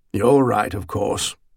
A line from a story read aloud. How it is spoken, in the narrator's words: Stonar sighed